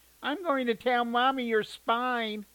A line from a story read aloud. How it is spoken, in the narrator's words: his sister whined